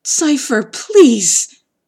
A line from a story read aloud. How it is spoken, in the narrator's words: begged